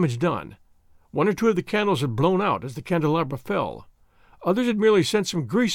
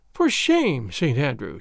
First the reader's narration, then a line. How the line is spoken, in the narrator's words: said, with a playful sigh